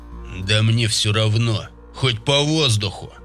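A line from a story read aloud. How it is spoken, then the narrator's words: Growl. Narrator (Russian): Прорычал тот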